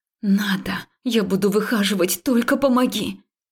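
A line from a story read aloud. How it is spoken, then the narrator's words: Hissing. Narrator (Russian): Я уже шипела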